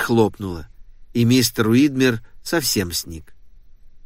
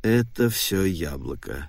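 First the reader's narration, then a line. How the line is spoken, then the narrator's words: Muttering. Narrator (Russian): пробормотал мистер Уидмер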